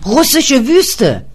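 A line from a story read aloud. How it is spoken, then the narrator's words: Shouted. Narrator (German): schrie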